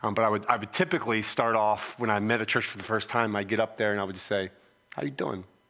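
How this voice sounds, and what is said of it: Philadelphia accent. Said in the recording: “I have a Philly accent”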